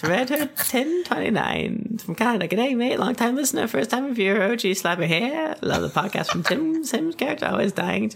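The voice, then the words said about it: Creepy cartoon character voice. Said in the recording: “in his salad fingers voice ... your salad fingers voice”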